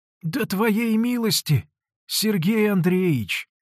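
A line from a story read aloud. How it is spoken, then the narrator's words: Hoarse, barely audible old man. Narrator (Russian): хриплым, едва слышным голосом отвечал старик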